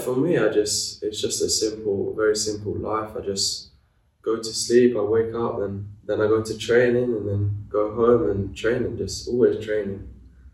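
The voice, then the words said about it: London accent. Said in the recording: “people listening will hear your accent, think, this boy's from London”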